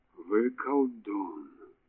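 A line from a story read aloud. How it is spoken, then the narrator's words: Mumbled. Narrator (Russian): пробормотал Брабендер и содрогнулся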